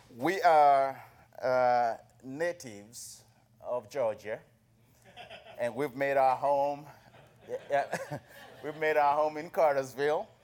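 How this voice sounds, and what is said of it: Southern African accent. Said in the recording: “that accent is not Southern. I say, it's Southern Africa. ... It's got some Southern accent to it.”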